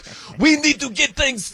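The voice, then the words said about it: Poor impression, sounds Middle Eastern. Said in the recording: “I can't do a Wemby impression. That sounded more like a Middle Eastern right there.”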